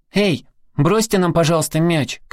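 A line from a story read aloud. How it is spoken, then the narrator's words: Boy shouting. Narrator (Russian): крикнул один из мальчишек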